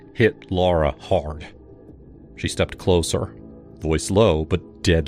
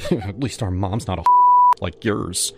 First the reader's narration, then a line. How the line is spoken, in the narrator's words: Sophia muttered